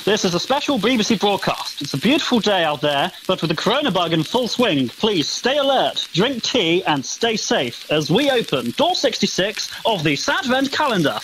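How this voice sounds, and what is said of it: Old-timey wartime BBC broadcaster voice. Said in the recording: “an old wartimey broadcast style ... So old timey. So you're going to do a voice like this”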